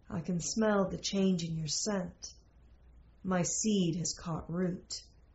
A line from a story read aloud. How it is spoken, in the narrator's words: Sir John said most softly